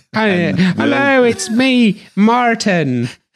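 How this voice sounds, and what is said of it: Irish leprechaun-style voice. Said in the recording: “Irish leprechaun? ... that's ... impression of you”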